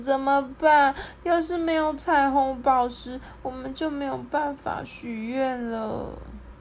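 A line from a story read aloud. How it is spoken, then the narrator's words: Sobbing. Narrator (Chinese): 他忍不住了，大哭起来，说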